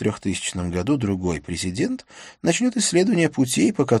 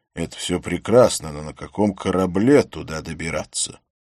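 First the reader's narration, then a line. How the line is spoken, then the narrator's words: Grumbling mutter. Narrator (Russian): ее муж пробурчал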